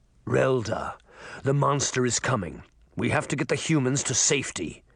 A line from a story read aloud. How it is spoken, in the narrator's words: he growled